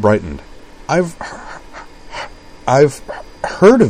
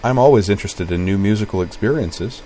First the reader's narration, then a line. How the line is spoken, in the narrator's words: he said